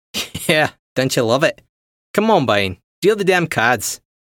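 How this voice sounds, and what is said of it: Australian-accented character voice. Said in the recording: “Green's accent said Australia.”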